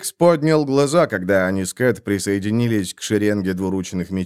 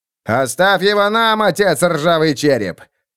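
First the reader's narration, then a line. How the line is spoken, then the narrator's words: Shouted. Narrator (Russian): крикнул Роди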